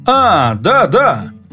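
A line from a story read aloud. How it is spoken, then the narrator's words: Animated exclamation. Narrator (Russian): воскликнул Юрковский, оживляясь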